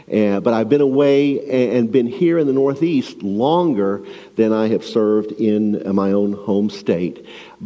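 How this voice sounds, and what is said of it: Shreveport Louisiana accent. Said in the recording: “He's got that accent... It's a Shreveport, Louisiana accent.”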